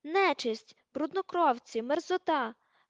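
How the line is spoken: Shrieking. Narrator (Ukrainian): верещала вона

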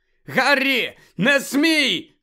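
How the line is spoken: Shout. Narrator (Ukrainian): крикнув Люпин

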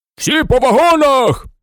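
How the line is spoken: Station master shouting. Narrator (Ukrainian): крикнув начальник вокзалу

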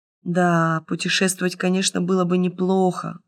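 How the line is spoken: Sighing. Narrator (Russian): вздохнул студент

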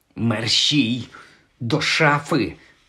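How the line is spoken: Hissed. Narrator (Ukrainian): зашипів Гаррі

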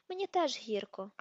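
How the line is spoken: Sighing. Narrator (Ukrainian): зітхнув Люпен

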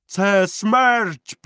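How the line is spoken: Shout. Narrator (Ukrainian): крикнув Вантола

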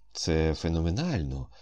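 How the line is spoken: Calm. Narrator (Ukrainian): спокійно сказав Комов

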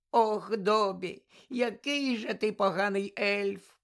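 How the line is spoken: Tearful moan. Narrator (Ukrainian): простогнала Вінкі, знову заливаючись слізьми

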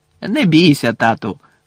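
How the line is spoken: Cheerful. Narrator (Ukrainian): весело сказав Фред

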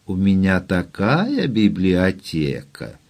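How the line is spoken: Languid voice. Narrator (Ukrainian): Фая навіть млосним голосом сказала

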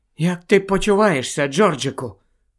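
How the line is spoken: Whisper. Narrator (Ukrainian): прошепотіла місіс Уізлі

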